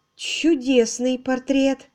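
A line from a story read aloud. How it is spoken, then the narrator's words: Forced, strained remark. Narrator (Russian): выдавила из себя Лора, только чтобы что-то сказать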